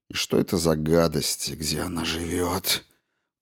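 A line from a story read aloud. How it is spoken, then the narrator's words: Grumble. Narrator (Russian): проворчал он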